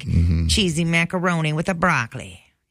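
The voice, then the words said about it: Put-on Italian accent. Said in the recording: “that's my Italian accent”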